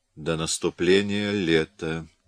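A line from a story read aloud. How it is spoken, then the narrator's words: Muttered. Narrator (Russian): пробормотал Людовик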